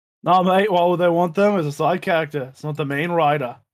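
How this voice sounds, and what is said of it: Thick Australian accent. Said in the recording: “thick Australian accent”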